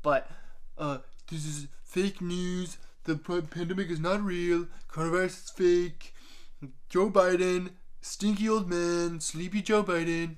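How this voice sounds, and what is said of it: Donald Trump impression. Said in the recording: “the first time I've ever actually tried to do an impression of Donald Trump”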